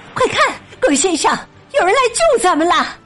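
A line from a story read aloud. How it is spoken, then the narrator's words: Shouting. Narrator (Chinese): 格林太太喊起来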